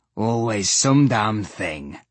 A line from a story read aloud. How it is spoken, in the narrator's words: One Eye grumbled